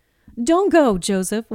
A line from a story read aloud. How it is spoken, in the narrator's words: Wally called out